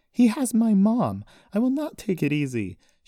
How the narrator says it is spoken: she yelled at him

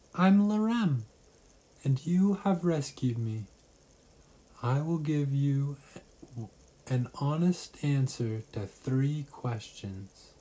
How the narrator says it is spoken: Then giggled and told Alice

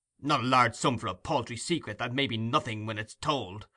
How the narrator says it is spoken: cried Monks impatiently

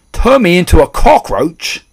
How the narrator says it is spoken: shouted Mr

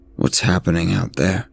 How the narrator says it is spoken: The man replied to him in a low voice

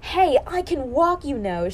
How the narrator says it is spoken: she yelled

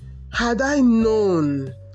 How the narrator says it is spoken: cried

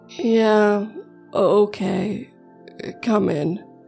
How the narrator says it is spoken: Jason said, his voice quivering slightly

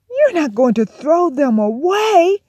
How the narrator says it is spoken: cried Brother

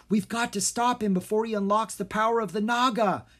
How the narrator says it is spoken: Jean cried

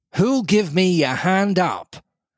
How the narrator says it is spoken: He roared

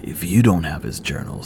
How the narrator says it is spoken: he rasped

